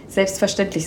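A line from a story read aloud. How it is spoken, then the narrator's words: Plain. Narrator (German): sagte Torm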